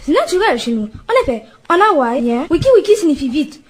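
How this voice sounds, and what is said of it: Put-on English accent, very fast speech. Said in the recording (French): “Pourquoi parlez-vous aussi vite?... vous avez un accent anglais”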